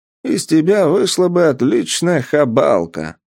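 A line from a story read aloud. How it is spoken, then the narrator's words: Laughing seller. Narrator (Russian): рассмеялся продавец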